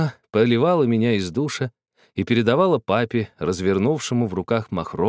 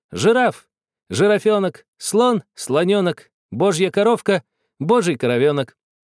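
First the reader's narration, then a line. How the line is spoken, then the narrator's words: Cheerful repetition. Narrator (Russian): я весело повторял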